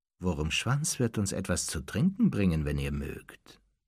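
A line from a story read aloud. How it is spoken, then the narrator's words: Plain. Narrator (German): sagte Snape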